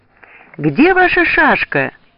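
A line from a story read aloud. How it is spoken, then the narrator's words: Shouting. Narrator (Russian): крикнул Стессель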